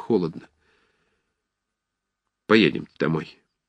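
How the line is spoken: Tired. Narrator (Russian): сказал устало

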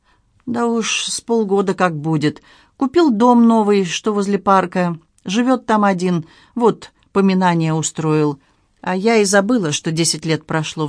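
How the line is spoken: Sighing. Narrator (Russian): вздохнула Нина

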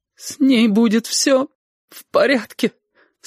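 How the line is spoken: Tearful cry. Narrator (Russian): сквозь слезы выкрикнула Сашка

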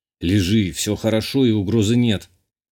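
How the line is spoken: Hoarse, joy sounding like threat. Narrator (Russian): Хрипло процедил я, поразившись своему голосу, в интонациях которого радость легко принять за угрозу

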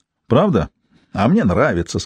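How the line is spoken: Said, then loud laughter. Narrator (Russian): сказал Полли и захохотал

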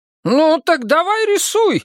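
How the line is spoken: Exclaimed. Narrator (Russian): воскликнула кормилица

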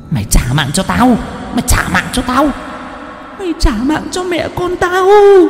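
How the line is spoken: Hissing, shrieking rage. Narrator (Vietnamese): Cô Nở miệng cứ rít lên

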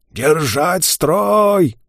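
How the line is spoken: Throat-straining yell. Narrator (Russian): Вит, опять надсаживая горло, заорал

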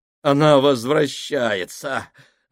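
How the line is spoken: Doomed exhale. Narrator (Russian): обреченно выдохнул Фабрини

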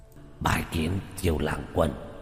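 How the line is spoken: Hoarse voice. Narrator (Vietnamese): Quỷ thi này, dùng giọng khàn khàn nói

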